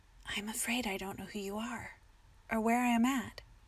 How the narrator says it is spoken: whispered

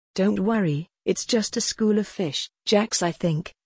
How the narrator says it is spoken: Samantha said calmly

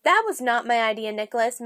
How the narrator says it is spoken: Marion said

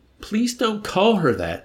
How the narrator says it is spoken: Nately begged, looking as though he might cry

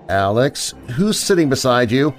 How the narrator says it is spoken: I felt my voice crack as I asked him

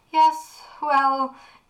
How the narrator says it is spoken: Aunt Kara laughed nervously, her voice growing closer

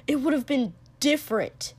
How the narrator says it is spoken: Kotsky said sharply

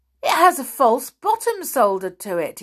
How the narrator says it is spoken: he cried

